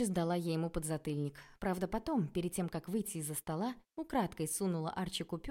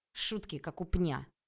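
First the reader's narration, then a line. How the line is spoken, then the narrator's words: Grumbling. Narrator (Russian): проворчал он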